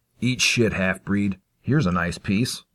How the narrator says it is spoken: Maggot growled

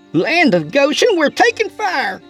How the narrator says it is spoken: she yelled

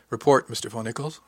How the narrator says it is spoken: the captain said evenly

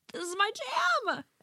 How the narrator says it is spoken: Your significant other yells

